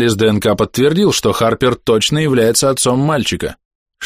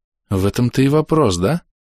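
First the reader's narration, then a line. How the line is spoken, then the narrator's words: Quiet reply. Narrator (Russian): негромко откликается Сомер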